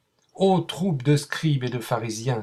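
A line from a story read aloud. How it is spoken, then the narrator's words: Cried out together. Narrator (French): s'écriaient-ils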